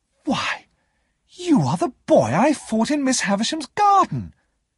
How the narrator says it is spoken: Herbert exclaimed

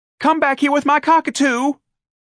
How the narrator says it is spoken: Darlene cried

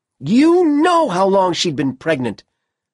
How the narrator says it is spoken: Ellen shouted

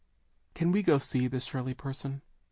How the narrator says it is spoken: Charles asked timidly

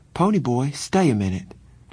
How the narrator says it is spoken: Cherry said

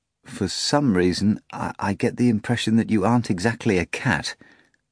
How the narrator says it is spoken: the master replied hesitantly

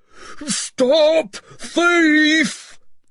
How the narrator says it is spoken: cried Huxter

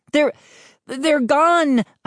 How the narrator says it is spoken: I stammered

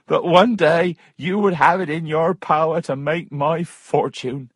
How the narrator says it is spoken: he laughed

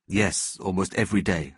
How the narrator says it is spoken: answered Schindler

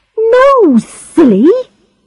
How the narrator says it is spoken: she cried

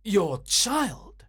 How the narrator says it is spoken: cried Grant Munro

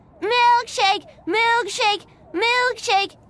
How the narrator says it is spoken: shouted

